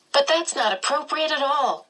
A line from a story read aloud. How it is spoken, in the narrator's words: Charles said crossly